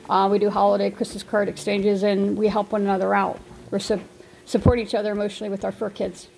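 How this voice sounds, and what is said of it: Anxious, stressed-sounding voice. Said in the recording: “I have been max stressed out. It's triggered my anxiety all day. I have high anxiety. ... As you could probably tell by my voice, it's not really helping yet.”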